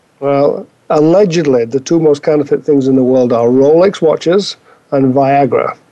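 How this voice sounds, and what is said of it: British accent. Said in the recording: “with that British accent”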